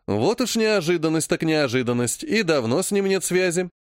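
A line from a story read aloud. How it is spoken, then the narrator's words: Snide question. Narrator (Russian): ехидно поинтересовался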